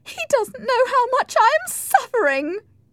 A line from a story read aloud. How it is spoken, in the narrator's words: cried Isabella